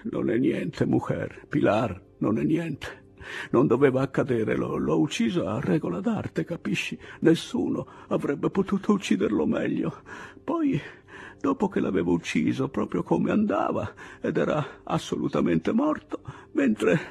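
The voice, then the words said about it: Faint, weak whispering voice. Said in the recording (Italian): “Poi un filo di voce ... imitò il bisbiglio lieve del torero ferito”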